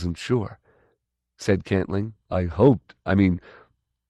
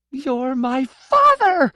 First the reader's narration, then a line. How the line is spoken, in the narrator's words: she shrieked